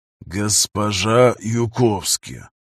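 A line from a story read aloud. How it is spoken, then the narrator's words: Through teeth, amazed disgust. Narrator (Russian): процедил сквозь зубы Штрудель, прищурившись со смесью изумления и брезгливости во взгляде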